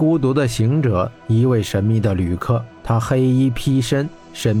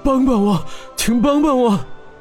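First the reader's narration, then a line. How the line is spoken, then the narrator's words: Hoarse, weak voice. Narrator (Chinese): 他的声音嘶哑无力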